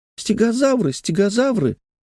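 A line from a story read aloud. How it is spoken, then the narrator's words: Toddler squeaking. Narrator (Russian): какой-нибудь трехлетний карапуз пищал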